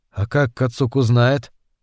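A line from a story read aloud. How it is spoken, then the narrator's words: Whisper. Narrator (Russian): Он прошептал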